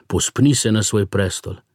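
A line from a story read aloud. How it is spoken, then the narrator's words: Two voices exclaiming. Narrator (Slovenian): sta vzkliknila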